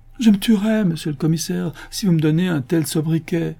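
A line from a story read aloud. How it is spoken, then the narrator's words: Pleading. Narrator (French): supplie Absalom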